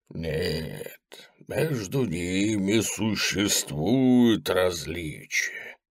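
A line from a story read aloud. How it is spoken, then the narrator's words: Soft. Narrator (Russian): мягко сказал Меггер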